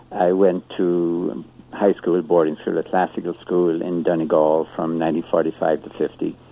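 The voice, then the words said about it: Irish accent. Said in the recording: “I grew up in Ireland, as you can probably tell from my accent”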